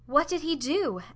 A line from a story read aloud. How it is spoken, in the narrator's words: asked Olive, eagerly